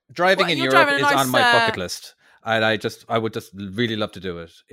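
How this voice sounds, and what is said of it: Irish accent with some American. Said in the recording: “the whole Irish accent part of me ... I did pick up a bit of the American type accent”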